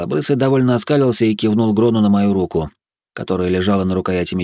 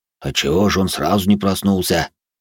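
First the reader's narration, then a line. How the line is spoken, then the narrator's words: Smirking deep voice. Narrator (Russian): Усмехнувшись, пробасил Грон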